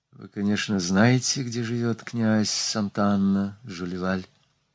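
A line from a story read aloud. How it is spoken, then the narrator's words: Very quiet question. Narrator (Russian): Она очень тихо спросила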